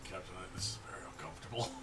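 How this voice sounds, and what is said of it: Whispering. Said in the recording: “I'm whispering this”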